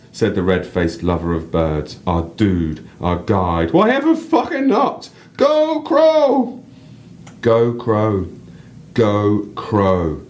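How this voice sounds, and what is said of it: Northern English accent. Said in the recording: “you random so North beautiful. English accent”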